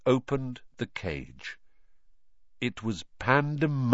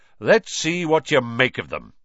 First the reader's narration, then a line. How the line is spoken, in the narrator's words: Lockhart said loudly